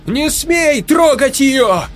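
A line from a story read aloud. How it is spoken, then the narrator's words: Shouted. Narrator (Russian): выкрикнула Марго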